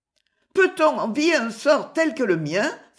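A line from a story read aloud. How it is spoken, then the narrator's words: Exclaiming. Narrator (French): s'écria-t-elle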